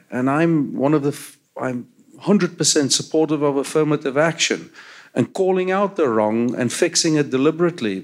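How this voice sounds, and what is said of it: South African accent. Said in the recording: “From my accent, you can hear I grew up in apartheid South Africa.”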